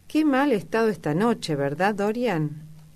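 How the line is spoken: Exclaimed. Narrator (Spanish): exclamó

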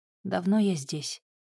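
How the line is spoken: Plain. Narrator (Russian): спросил он

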